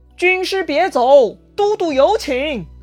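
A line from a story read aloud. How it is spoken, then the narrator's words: Loud call. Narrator (Chinese): 徐盛大声呼唤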